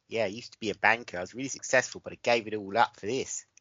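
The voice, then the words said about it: Good put-on Australian accent. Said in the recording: “You're pretty good at Australian accent.”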